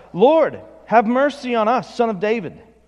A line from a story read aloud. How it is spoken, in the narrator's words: They cried out